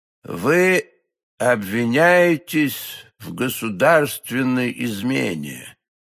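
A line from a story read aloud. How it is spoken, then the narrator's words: Slow deliberate speech. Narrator (Russian): медленно проговорил кардинал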